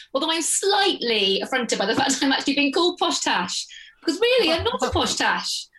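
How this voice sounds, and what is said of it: Exaggerated posh English accent. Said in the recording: “I'll introduce myself with my poshest accent possible”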